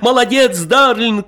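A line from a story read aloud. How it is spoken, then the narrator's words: Shouting into ear. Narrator (Russian): кричал ему в ухо Николай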